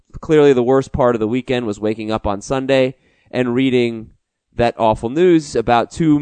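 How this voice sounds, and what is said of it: Sick-sounding voice. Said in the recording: “I'm a little sick, by the way. You can probably tell in my voice.”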